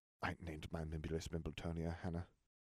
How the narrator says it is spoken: he muttered

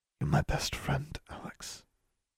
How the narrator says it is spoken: Anna said, very quietly

